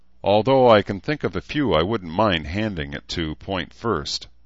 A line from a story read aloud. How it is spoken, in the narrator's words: Edmund said with a chuckle